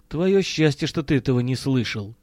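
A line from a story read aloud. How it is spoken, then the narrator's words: Gloomy mutter. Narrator (Russian): угрюмо буркнул Миронов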